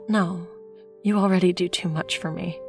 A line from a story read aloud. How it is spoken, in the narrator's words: said with a sigh